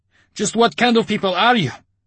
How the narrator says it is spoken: Artyom bellowed in fury

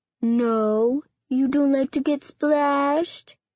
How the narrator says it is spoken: He asked in a baby voice

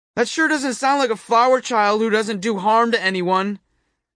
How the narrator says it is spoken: I hollered after her

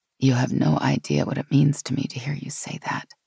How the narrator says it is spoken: she said softly, with obvious relief

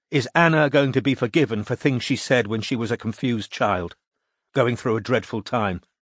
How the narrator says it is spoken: Kim said coldly

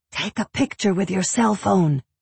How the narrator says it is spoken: Jackie whispers

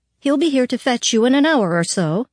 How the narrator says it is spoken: she said brightly

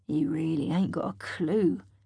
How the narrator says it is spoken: he mutters

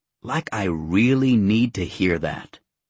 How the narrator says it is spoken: he snapped

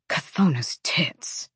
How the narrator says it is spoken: he muttered

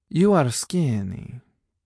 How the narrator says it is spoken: she said in that melodious accent of hers, words falling out of her mouth like musical notes

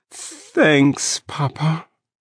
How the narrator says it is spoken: I said in a trembling voice

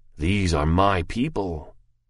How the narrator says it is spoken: he said bitterly within himself at last

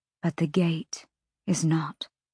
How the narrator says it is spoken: Hypaxia said quietly

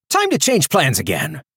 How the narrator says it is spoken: Calder said, his voice high and panicked

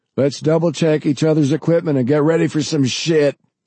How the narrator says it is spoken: Forrest shouted enthusiastically

